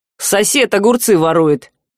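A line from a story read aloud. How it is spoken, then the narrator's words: Contemptuous snort. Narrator (Russian): презрительно фыркнул Саврянин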